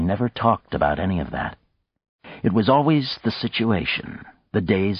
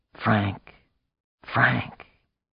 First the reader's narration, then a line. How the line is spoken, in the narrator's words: whispering